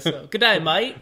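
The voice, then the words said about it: Poor attempt at Australian accent. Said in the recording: “That wasn't Australian at all. That was like East Indian British guy. ... my Australian accent”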